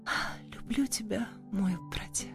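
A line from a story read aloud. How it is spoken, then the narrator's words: Sleepy contented whisper. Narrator (Russian): Находясь на грани сна и яви, Жасмин удовлетворенно вздохнув, прошептала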